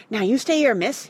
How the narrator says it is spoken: he panted

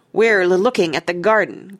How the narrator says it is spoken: growled Nigel

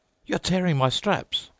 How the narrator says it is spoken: cried the officer

